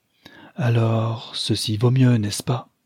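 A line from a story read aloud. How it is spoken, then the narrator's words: Resuming with a long sigh. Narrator (French): reprit-elle avec un long soupir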